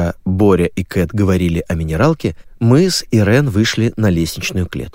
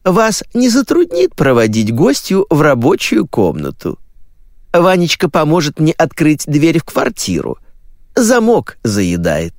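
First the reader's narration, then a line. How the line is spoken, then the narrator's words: Cooing. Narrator (Russian): проворковала Котина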